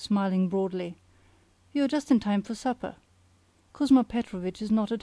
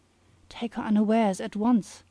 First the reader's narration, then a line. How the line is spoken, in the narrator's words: whispered Dukovsky